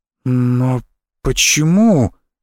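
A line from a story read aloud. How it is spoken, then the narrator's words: Strained, forced out. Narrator (Russian): выдавила из себя я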